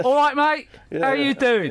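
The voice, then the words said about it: Put-on Cockney accent. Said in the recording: “I had a Cockney accent”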